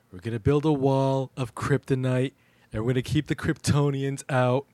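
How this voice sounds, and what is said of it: Imitates another person's voice. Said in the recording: “his Trump impression ... He can do a Trump impression.”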